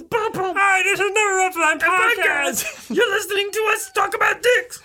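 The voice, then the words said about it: Kermit the Frog character voice. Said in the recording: “That was Kermit, by the way... that was my Kermit impression”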